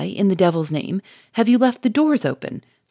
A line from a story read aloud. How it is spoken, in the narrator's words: cried Charolais, irritably